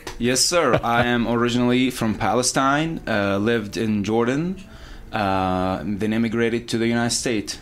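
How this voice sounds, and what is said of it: Middle Eastern accented English. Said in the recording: “You have an accent, and you look like you might be from the Middle East.”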